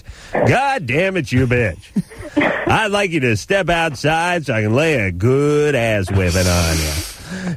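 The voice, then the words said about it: DJ-style radio announcer voice. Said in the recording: “radio voice”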